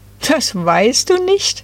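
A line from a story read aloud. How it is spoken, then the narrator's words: Group giggling. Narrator (German): kicherten da die drei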